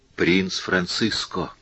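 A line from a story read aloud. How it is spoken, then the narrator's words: Whisper. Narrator (Russian): шепнула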